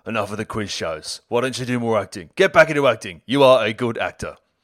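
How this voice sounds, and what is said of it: Poor Ray Winstone impression. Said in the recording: “Ray Winstone impression was garbage”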